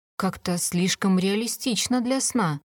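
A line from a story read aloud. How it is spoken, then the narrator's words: Muttered. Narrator (Russian): пробормотала я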